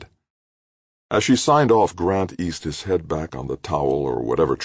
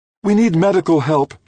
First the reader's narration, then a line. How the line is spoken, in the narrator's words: Trudy said urgently